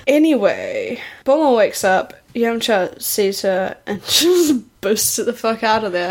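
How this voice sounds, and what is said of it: Heavy vocal fry. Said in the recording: “I'm doing like so much vocal fry.”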